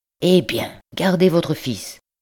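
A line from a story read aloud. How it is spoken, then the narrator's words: Brusque tone. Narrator (French): dit-il d'un ton brusque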